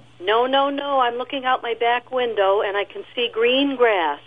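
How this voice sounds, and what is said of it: Boston accent. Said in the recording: “I had to add my Boston accent.”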